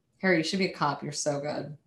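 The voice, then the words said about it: Sarcastic delivery. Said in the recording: “You're being sarcastic.”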